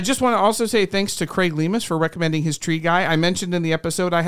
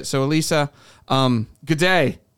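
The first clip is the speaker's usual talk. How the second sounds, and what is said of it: Poor attempt at Australian accent. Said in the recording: “Sorry, I don't really do an Australian accent. I'm terrible.”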